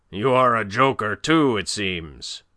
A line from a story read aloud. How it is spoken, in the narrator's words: roared